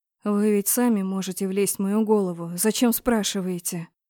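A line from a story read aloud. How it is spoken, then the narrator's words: Sad, smiling. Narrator (Russian): Тот грустно улыбнулся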